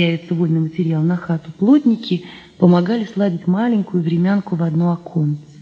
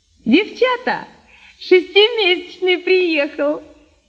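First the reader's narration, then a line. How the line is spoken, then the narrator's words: Shouting. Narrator (Russian): крикнула птичница Нинка Арбузова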